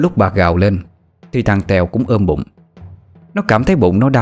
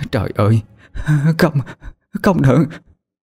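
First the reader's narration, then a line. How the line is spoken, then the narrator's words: Stammering cry. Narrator (Vietnamese): miệng lắp bắp mà kêu lên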